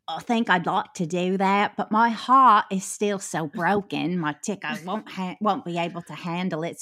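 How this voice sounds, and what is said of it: Put-on English accent. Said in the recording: “I feel like you're sliding into an English accent there”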